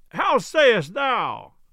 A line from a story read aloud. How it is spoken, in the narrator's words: roared Tuck from the choir loft